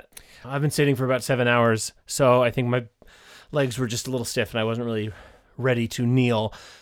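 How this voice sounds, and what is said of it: Slightly out of breath. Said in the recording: “I'm out of breath a little bit.”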